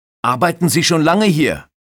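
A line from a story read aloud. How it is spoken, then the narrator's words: Shouted. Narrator (German): schreit Carsten Zara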